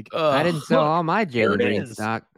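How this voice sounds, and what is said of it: Imitates another person's voice. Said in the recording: “That was like, my Bill Simmons impression. ... They're both terrible. ... That was really good, and I hate it.”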